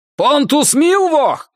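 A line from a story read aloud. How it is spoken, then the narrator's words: Shouting. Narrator (Russian): крикнул он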